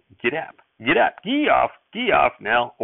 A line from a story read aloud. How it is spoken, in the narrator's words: he couldn't help chirping